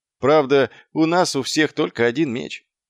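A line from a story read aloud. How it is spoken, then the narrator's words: Gloomy. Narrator (Russian): мрачно промолвил Маркоу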